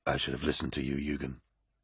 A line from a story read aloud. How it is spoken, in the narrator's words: whispered